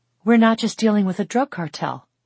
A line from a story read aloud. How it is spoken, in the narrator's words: Allie breathed